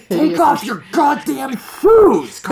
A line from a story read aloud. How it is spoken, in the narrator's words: Carl shouted